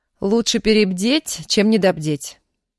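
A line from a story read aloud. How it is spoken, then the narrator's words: Stern, curt. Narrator (Russian): строго отрезала Аня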